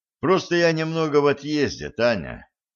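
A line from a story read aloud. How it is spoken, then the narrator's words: Sighing young man. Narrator (Russian): вздохнул молодой человек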